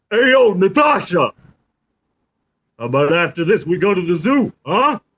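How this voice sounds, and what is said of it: Rocky impression. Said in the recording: “doing a Rocky voice”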